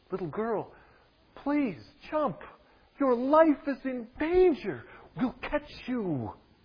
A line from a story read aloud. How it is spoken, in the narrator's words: They pleaded with her